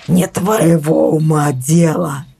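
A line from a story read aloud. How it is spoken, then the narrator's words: Strained hoarse rasp. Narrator (Russian): прохрипел он, собравшись силами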